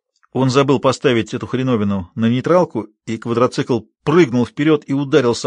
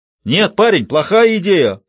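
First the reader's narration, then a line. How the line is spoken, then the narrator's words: Shouted. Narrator (Russian): прокричал один из солдат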